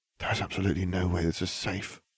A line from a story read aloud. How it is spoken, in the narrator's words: Hermione muttered